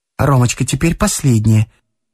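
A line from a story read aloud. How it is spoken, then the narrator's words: Hurried, sad, anxious. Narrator (Russian): сказала Александра Петровна торопливо, но с печалью и тревогой в голосе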